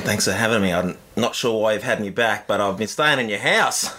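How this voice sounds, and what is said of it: Thick Australian accent, grumbly grainy voice. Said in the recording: “that thick Australian accent and grumbly, grainy voice”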